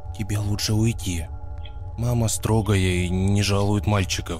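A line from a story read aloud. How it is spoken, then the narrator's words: Whisper. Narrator (Russian): Даша сказала шепотом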